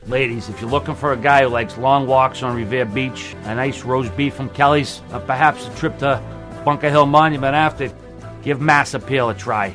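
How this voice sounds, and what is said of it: Boston accent. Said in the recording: “That's definitely Boston. ... That's Boston, yeah.”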